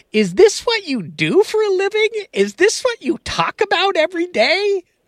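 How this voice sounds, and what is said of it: Imitates his mother's voice. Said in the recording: “my best mom impersonation.”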